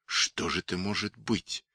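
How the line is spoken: Anxious whisper. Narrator (Russian): встревоженным шепотом спросил Сидлер

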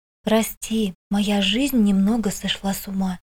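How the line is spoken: Whisper. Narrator (Russian): прошептала

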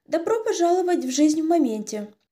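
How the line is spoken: Measured, serious. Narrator (Russian): говорит Дейдре, не слишком весело, но и не слишком уныло, с правильной долей серьезности

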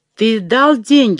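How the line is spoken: Shouting. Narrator (Russian): уже кричала Ольга

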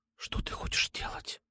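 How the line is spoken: Whispered. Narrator (Russian): прошептала

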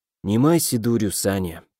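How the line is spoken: Hunted whisper. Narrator (Russian): прошептал, затравленно

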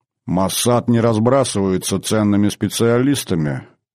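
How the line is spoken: Irritated grumble. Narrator (Russian): пробурчал генерал и почувствовал прилив раздражения

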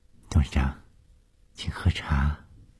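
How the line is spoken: Soft, gentle. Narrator (Chinese): 被眼前发生的事惊得心颤颤的，她这才缓过气来，柔声地说

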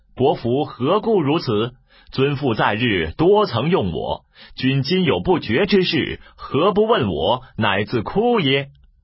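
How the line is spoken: Loud laughter. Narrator (Chinese): 一人 大笑曰

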